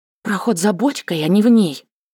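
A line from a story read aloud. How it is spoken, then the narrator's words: Agitated whisper. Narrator (Russian): Взволнованно прошептала Таня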